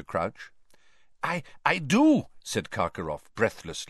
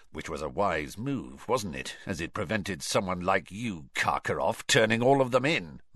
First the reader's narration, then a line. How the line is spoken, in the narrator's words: muttered Moody